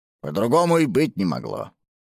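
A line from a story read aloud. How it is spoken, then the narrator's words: Grumbling. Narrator (Russian): проворчал тот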